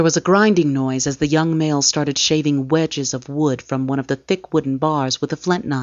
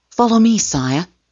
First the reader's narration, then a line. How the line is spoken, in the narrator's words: Dorne gasped